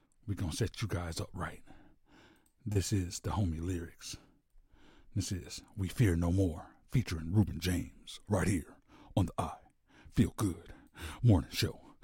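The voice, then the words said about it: Smooth, low, sultry radio voice. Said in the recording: “in my quiet storm voice ... You know your boy sound real good ... I sound real sexy right now.”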